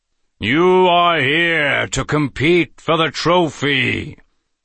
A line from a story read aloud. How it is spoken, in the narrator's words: the face in the left door thundered